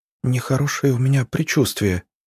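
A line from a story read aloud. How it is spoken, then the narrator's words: Whisper. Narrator (Russian): прошептала Маша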